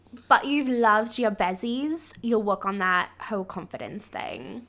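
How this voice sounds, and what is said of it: Put-on British accent. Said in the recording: “I'm going to say this in a British accent.”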